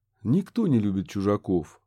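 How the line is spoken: Calm agreement. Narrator (Russian): спокойно согласился Курт

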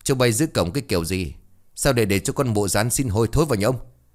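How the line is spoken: Shouting. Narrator (Vietnamese): Ông Chánh quát

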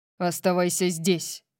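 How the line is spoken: Growled. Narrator (Russian): прорычал он

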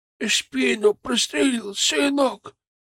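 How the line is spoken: Weak, near whisper. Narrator (Russian): Ее голос был слабым, почти шепотом

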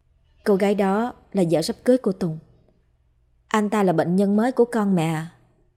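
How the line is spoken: Sighing, careful words. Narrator (Vietnamese): thở dài rồi lựa lời nói với mẹ

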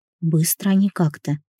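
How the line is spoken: Soft whisper. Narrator (Russian): тихо прошептала я

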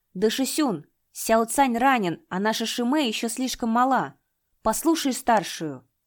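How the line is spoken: Hasty exclamation. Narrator (Russian): поспешно воскликнул

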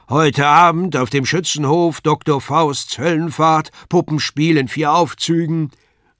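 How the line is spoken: Loud crier's announcement. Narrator (German): der Ausrufer laut verkündigte

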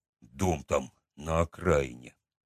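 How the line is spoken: Forced out. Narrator (Russian): наконец выдавил он

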